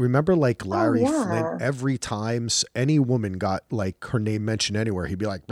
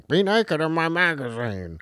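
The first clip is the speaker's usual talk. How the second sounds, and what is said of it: Imitates another person's voice. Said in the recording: “That was my Larry Flint impersonation.”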